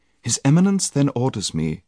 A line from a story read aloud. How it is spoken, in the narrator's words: said the lady